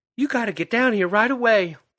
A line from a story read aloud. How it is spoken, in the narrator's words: Vera pleaded